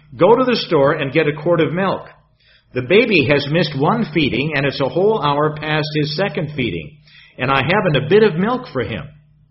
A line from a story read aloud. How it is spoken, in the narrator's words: exclaimed my wife